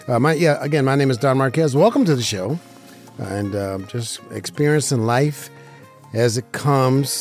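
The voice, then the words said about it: Rough, slightly hoarse voice. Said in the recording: “My voice is a little rough today. I don't know what's going on with my voice”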